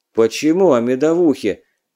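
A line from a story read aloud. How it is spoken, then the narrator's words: Sad. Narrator (Russian): грустно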